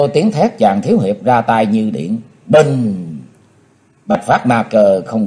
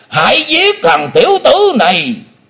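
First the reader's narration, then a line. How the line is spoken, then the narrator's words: Demon roaring. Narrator (Vietnamese): Lão đại ác ma theo tiếng gầm quát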